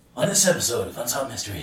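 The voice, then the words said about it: Creepy Unsolved Mysteries host voice. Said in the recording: “Kind of sounds like him, the host ... I'd have to have much more of a creepy voice.”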